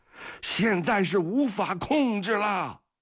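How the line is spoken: Through gritted teeth. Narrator (Chinese): 格里高里咬牙切齿

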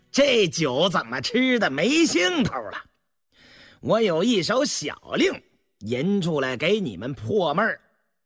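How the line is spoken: Laughing. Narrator (Chinese): 燕娥见大家沉闷不语，笑道

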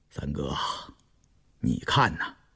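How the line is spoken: Soft, hesitant. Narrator (Chinese): 胤禛沉吟着，偏过脸轻声道

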